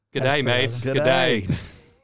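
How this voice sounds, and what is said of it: Bad put-on Australian accent. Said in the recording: “It was insulting. It was that bad of an Australian accent.”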